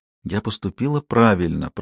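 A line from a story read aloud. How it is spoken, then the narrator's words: Whisper. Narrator (Russian): прошептала она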